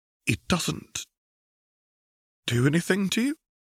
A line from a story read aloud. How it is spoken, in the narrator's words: Mark asked timidly